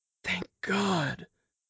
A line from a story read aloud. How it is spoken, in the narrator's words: he murmured